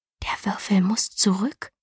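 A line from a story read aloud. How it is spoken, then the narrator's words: Whispered. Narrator (German): flüsterte Galina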